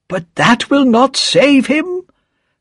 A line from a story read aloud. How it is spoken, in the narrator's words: cried Mr